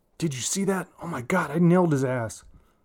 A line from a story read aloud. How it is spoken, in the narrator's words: Bobby blurts out